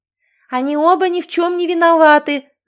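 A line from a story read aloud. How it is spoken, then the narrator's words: Shouted. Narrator (Russian): закричала Кэти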